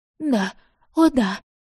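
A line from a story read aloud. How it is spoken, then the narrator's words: Mother sobbing. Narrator (Russian): всхлипывала мать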